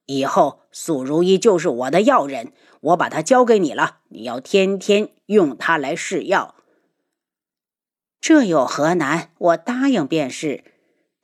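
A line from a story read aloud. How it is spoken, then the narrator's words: Angry snort. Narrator (Chinese): 大长老怒哼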